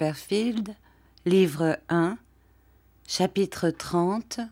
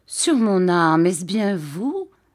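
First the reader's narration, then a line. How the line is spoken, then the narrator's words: Plain. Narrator (French): dit Monsieur Homer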